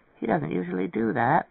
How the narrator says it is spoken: Nitz murmured

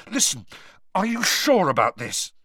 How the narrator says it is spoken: said Harry frantically

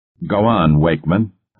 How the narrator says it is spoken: Bentley radiated harshly

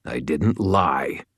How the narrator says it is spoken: Green snarled

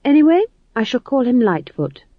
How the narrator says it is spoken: said McGrath, her voice warm with defiance

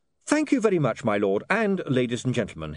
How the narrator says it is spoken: he said cheerfully

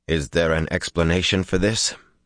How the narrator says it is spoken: Her voice did not change

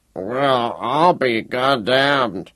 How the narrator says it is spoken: the first fnool mumbled

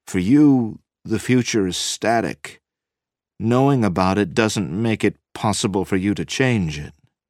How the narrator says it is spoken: Cusick said slowly

